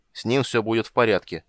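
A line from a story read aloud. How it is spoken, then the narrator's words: Curt, commanding tone. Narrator (Russian): отрезал Карамон едва ли неприказным тоном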